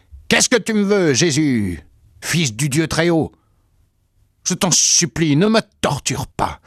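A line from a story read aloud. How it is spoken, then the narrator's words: Loud howling cry. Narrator (French): il poussa des hurlements et vint se jeter à terre en criant d'une voix forte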